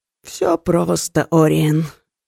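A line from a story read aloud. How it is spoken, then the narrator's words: Sleepy voice. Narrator (Russian): сонным голосом отозвался Кертон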